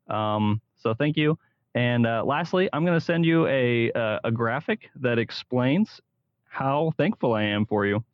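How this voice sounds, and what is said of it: Polished radio-announcer voice. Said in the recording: “radio voice too, man. You might want to go into radio. You got a good little radio voice ... Sounded awesome. Good audio.”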